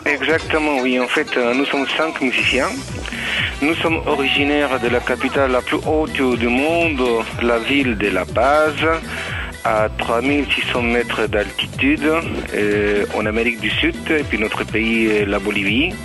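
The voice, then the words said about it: Latin American Spanish accent in French. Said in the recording (French): “On sent l'accent latin.”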